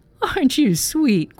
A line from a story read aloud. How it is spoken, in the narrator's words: quavered the ancient one